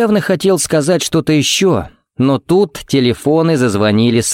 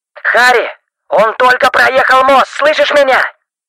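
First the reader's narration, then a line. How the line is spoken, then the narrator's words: Shouting into phone. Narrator (Russian): Стив, буквально кричал в трубку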